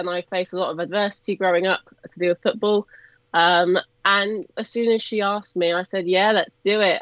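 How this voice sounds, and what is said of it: English Cotswolds accent. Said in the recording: “I don't come from Birmingham, as everyone can tell by my accent. I come from deep Cotswolds”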